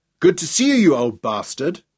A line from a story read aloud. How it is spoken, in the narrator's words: grinning happily